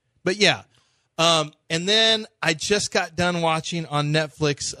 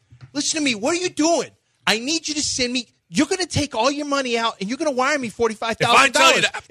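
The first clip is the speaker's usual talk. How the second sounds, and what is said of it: Boston accent, impression of Jason Barrett. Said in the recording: “only with a Boston accent ... it sounds like Jason Barrett ... The guy sounds exactly like our program director, Jason Barrett.”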